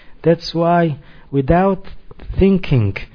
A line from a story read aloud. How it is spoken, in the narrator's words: he cried out